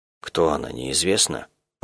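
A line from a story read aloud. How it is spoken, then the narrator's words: Hoarse rasp. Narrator (Russian): прохрипела я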